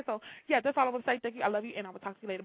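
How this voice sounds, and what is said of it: Very fast auctioneer-style speech. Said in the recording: “I'm talking real fast. And I'm about to talk like an auctioneer.”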